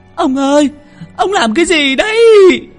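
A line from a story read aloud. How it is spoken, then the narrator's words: Old woman wailing, sobbing. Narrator (Vietnamese): Bà Lý gào lên một tiếng, khóc nức nở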